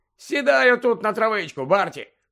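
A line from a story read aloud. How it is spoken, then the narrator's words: Cheerful suggestion. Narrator (Ukrainian): весело запропонував йому Лудо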